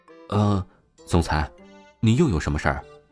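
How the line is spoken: Asking. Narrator (Chinese): 王峰问道

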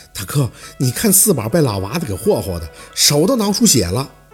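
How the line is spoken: Sighing. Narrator (Chinese): 凤年叹口气

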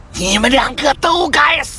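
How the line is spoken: Frenzied roaring. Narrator (Chinese): 疯狂的咆哮着

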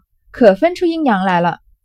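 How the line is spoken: Laughing. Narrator (Chinese): 翠缕笑道

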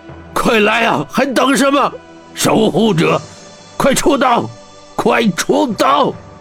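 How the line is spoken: Roared. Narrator (Chinese): 铁虎吼道

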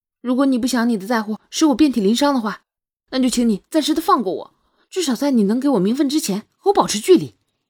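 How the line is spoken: Angry shout. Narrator (Chinese): 双月生气的喊道

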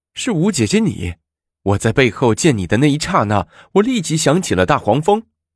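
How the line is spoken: Laughing question. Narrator (Chinese): 武则天笑着问

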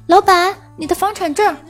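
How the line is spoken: Shouting. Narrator (Chinese): 我喊道

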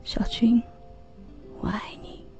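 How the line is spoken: Murmuring. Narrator (Chinese): 我喃喃地说

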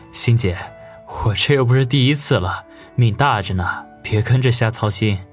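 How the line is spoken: Forced dry laugh. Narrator (Chinese): 王宇干笑一声，说道

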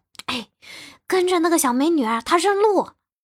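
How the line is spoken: Older woman, quietly. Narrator (Chinese): 有一个大妈，她小声的说

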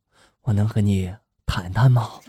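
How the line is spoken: Shy, hesitant, low voice. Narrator (Chinese): 内向的小张犹豫了很久之后呢，他终于鼓起了勇气，低声的就问了

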